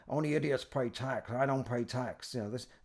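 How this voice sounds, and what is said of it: Imitates another person's voice. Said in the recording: “my Robert Kiyosaki impression.”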